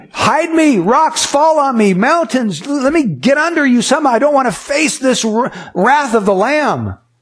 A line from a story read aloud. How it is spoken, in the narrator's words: people are going to scream